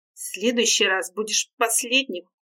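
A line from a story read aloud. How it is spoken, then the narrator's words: Growl. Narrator (Russian): рыкнул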